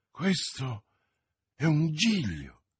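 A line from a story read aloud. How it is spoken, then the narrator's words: Exclamation. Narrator (Italian): esclamò Felton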